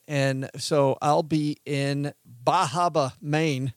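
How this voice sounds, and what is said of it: Weak attempt at Maine accent. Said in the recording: “I can't do that accent, but I'll be in Bar Harbor, Maine”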